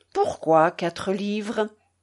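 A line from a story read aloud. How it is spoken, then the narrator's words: Grumpy tone. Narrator (French): dit-elle d'un ton grognon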